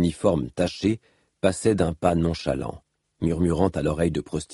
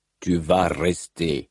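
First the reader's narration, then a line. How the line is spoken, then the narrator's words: Growled. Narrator (French): gronda Rock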